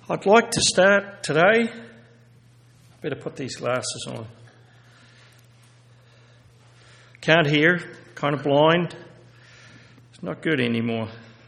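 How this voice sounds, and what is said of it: Upper Midwest Minnesota-style accent. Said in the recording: “I have a Minnesota accent, ... so a little further south”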